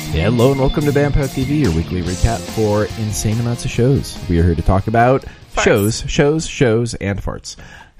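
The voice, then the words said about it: Calm, flat NPR-style radio voice. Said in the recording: “did you just take a Quaalude or something? Why are you so? ... This is my NPR voice. ... boring.”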